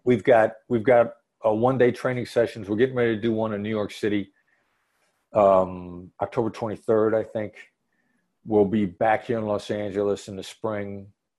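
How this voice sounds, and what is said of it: Regional accent, not Los Angeles. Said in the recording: “your accent just did not make me think you were here”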